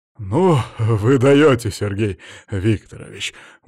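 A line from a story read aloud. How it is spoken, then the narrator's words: Snorting. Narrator (Russian): Валерьяныч хмыкнул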